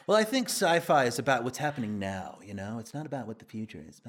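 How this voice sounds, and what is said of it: Imitates another person's voice. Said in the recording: “this is my impression of him”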